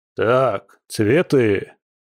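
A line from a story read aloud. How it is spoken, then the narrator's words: Barked shout. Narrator (Russian): гаркнул Илья Николаевич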